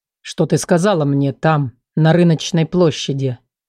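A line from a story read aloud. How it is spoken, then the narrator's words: Low, cold, forceful. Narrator (Russian): Его голос звучал низко и холодно, словно он пытался показать свою силу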